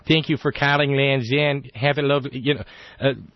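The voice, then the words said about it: Upper Midwestern accent impression. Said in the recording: “There's a beauty to that accent you get when you call to order a sweater from Land's End ... That upper Midwestern thing. It's gorgeous.”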